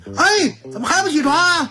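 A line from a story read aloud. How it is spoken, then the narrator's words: Mother shouting. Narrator (Chinese): 他妈后边大喊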